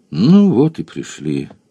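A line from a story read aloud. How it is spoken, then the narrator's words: Sighing. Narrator (Russian): вздохнул желтоглазый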